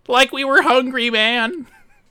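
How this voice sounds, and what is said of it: Shaggy cartoon character impression. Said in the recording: “That was pretty good, Shaggy. That's a pretty good impersonation right there.”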